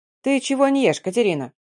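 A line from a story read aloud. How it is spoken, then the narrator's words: Grandmother's sharp scolding. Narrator (Russian): прикрикнула на меня бабушка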